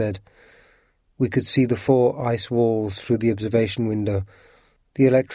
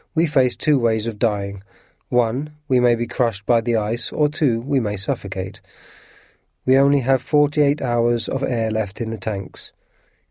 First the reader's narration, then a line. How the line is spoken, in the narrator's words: Nemo said calmly